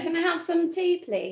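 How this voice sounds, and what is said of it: Posh English accent. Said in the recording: “talk in an English accent ... That's really good. You sound very posh.”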